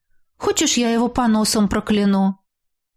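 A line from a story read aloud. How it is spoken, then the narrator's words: Calm, unperturbed question. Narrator (Russian): Радомира спокойно и невозмутимо спросила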